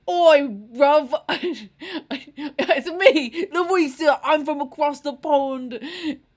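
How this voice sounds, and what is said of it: Aggressive put-on English accent. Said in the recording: “the most aggressive accent ... Sounds like she hangs out at like soccer pitches in England”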